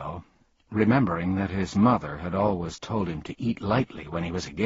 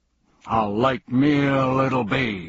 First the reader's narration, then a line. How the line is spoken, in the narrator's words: roared the bug